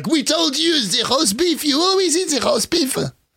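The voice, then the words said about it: Bad mock French accent. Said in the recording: “That's a terrible French accent.”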